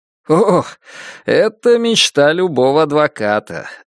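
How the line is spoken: Laughing. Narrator (Russian): рассмеялся Джейк

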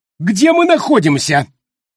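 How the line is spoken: Sudden panicked yell, heavy man. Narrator (Russian): завопил вдруг краснолицый тучный мужчина, и в голосе его отчетливо послышались панические нотки

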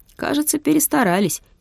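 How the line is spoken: Giggling. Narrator (Russian): хихикнул Юрик

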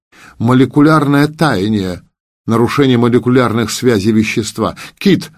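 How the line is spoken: Sudden shout. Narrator (Russian): вдруг крикнул он

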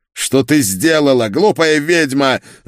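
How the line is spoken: Spluttering yell. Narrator (Russian): заорал он, брызгая слюной

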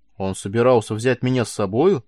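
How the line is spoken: Excited amazement. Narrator (Russian): взволнованно изумилась она

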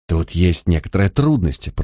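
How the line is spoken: Muttered. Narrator (Russian): пробормотал он

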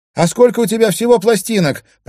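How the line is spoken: Shouting back. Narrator (Russian): прокричала в ответ Кая

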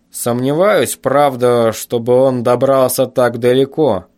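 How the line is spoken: Father's dull, hollow tone. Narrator (Russian): продолжал отец тем же глухим тоном

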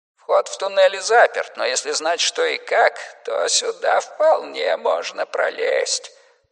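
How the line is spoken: Wheezy old man. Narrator (Russian): просипел старик

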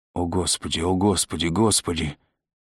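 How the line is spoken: Monotonous moaning nearby. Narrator (Russian): Кто-то однообразно стонал совсем рядом, приговаривая

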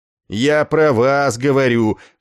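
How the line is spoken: Barked. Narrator (Russian): сыновито рявкнул тощий полковник

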